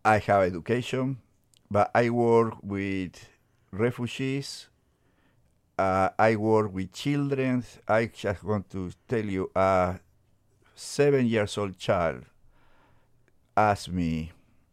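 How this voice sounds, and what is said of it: Foreign accent in English. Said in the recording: “I have accent.”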